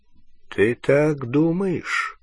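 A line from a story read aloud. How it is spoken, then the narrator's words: Slow. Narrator (Russian): медленно произнес Дамблдор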